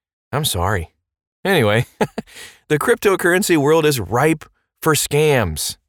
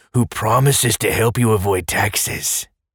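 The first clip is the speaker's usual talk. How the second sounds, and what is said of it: Terrible put-on Russian accent. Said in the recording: “that was a terrible Russian accent.”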